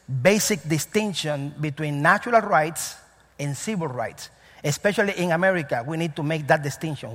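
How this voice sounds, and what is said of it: Cuban-accented English. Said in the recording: “I'm from Cuba and I have an accent.”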